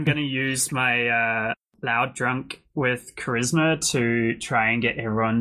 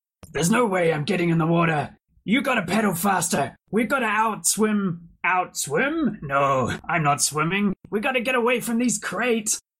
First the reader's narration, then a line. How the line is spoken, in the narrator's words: starts shouting extremely loud